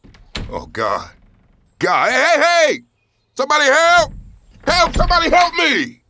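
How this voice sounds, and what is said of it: Yelling for help. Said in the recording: “Stop yelling.”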